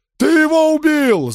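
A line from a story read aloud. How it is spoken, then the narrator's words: Yelling. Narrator (Russian): заорал другой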